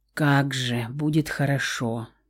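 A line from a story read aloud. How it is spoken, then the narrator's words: Mutter. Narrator (Russian): пробормотала Лаура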